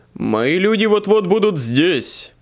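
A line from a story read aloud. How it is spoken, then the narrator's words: Growled. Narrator (Russian): прорычал Паркер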